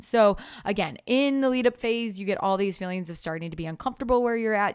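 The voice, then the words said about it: Very fast excited speech. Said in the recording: “I'm talking too fast”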